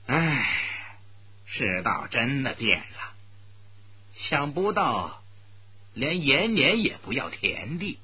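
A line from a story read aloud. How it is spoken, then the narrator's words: Slow, sighing. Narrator (Chinese): 朱木堂叹了一口气，慢慢的说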